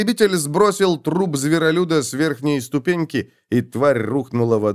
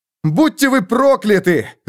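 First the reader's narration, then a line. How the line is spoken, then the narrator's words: Shouted. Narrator (Russian): закричал Феликс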